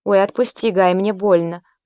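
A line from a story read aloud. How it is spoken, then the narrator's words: Pained moan. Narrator (Russian): простонала Агриппина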